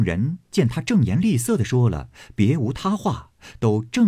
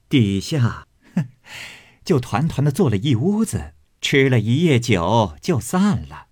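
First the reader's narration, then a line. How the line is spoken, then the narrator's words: Laughing. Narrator (Chinese): 凤姐儿 笑道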